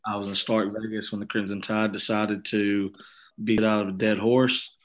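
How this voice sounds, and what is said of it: Hoarse, strained voice. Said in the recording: “Voice is a little choppy. ... my voice is a little absent today.”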